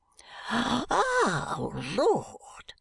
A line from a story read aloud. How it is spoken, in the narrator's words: gasps Mr